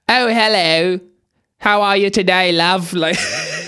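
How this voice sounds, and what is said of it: Put-on East London Cockney accent. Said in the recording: “the accent she chose was the low-class one. They call it, like, East London Cockney”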